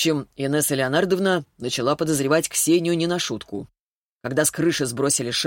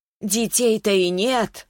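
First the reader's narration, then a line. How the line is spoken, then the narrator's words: Exclamation. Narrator (Russian): воскликнула Клавдия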